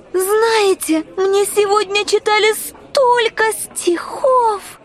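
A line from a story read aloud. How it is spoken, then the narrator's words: Timid. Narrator (Russian): Начала Алиса робко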